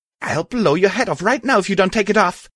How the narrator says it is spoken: She shouted as she started to cry

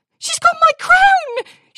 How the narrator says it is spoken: She cried into the night

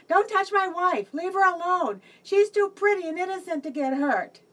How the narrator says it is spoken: my husband shouted out

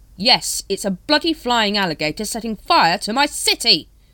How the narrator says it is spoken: shouted Rhymes

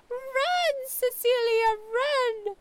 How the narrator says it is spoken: Jamie shrieked

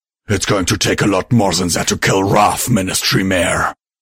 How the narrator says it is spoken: he snarled

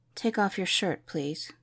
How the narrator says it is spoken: he softly said

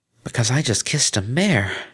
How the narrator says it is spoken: she hissed

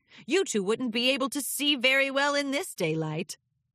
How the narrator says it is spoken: chuckled

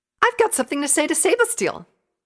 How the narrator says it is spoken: piped up

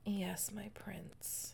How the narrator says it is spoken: whimpered softly

